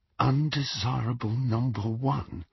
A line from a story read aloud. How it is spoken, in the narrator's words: Harry muttered under his breath